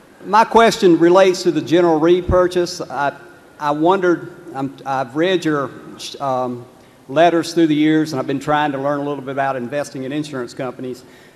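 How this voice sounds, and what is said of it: North Carolina Southern accent. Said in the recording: “I'm from Lexington, North Carolina, as you can tell by the accent.”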